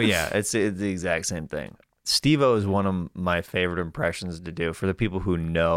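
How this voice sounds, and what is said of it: Usual voice. Nothing is said of it.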